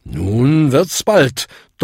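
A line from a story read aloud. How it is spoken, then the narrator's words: Thundering roar. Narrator (German): donnerte Bung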